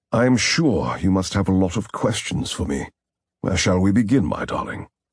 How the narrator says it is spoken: In his faultless British accent, the man calling himself David Mars said

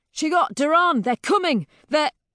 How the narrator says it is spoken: a man shouting

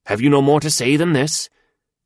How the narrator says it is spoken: said impatiently

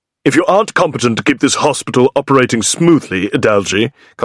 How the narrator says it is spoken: Costello barks

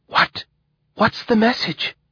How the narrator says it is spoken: whispered B

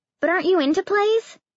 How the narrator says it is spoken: Spencer blurted out

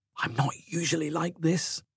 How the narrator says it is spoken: Mortified at what Patra must be thinking, she whispered

